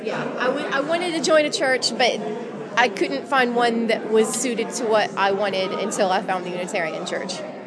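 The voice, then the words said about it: American Southern accent. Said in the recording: “With an American accent. ... With an American accent. I'm from Tennessee.”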